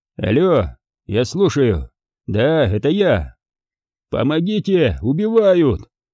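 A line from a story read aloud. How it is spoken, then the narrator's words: Yelling like a cheated woman. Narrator (Russian): заорал я обманутой проституткой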